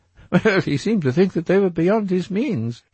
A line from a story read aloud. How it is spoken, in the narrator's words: laughed Dorian